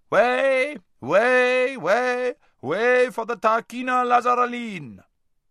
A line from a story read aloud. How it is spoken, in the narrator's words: was heard shouting out